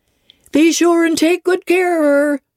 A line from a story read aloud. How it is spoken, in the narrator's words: cried she to the guard